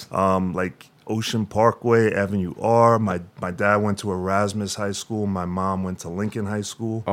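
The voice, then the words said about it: Long Island accent. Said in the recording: “So that's where you get the accent from. ... That's the Long Island accent.”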